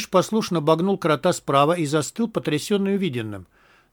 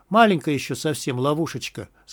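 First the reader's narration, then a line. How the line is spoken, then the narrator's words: Plain. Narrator (Russian): сказал Крот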